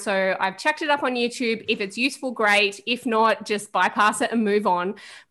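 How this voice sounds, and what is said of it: Strong Australian accent. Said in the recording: “I know my accent is strong for people who don't live in Australia”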